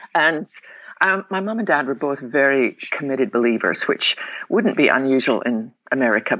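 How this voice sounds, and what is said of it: Scottish accent. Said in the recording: “I was born in the west coast of Scotland. Probably tell them my accent.”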